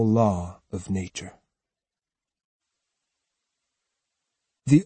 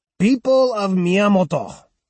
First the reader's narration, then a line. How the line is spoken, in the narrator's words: he shouted